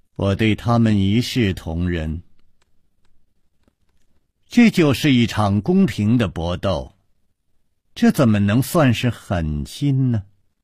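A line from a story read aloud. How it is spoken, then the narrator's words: Flat, irrefutable tone. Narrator (Chinese): 他说话的声音还是那么平淡，却又令人永远不能辩驳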